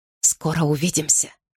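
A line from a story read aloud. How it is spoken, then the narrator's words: Whisper. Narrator (Russian): Гарри шепнул ей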